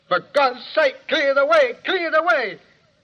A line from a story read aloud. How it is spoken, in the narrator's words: It shouts